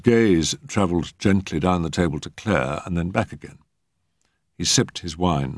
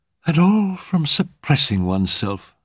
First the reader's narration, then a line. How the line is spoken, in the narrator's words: sighed Mrs